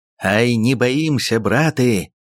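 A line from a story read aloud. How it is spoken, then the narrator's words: Shouting. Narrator (Russian): крикнул Ермак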